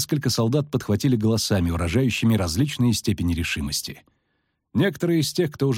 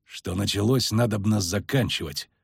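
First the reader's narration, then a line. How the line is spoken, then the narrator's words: Muttered. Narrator (Russian): буркнул Геральт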